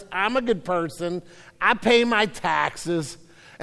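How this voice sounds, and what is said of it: Bad put-on Italian accent. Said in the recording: “a really bad Italian accent”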